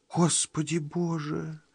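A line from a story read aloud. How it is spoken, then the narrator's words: Whispered. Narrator (Russian): шепнула, наконец, Энни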